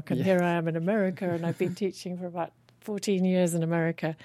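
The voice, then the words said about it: English accent. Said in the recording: “So I speak with this English accent”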